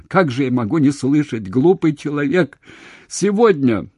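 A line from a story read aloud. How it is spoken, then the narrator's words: Sobbing openly. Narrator (Russian): Уже не стыдя слез, рыдая навзрыд, сказала она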